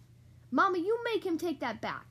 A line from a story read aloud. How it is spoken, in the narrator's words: cried Sister